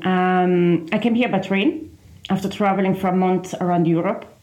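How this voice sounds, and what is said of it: Foreign, non-Irish accent. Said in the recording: “I can hear from your lovely accent that you're not from these shores.”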